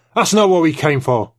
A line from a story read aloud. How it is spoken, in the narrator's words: Trevithick snapped